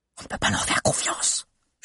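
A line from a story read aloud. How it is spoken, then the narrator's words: Loud whisper. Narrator (French): chuchota cette fois Suzy derrière Agnel, mais suffisamment fort pour que tous entendent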